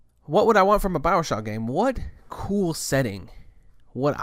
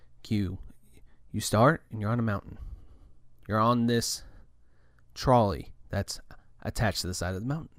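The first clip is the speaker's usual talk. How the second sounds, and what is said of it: Deliberately deep narrator voice. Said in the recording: “let's get a little deep voice going here.”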